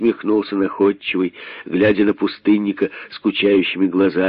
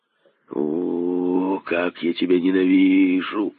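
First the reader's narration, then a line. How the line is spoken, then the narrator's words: Hissing. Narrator (Russian): прошипел пустынник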